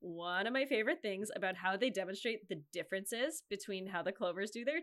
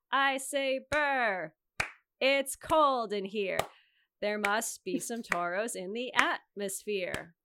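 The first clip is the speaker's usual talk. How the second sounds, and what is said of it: Sing-song teacher voice. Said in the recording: “I sound like Miss Bree in my teacher voice”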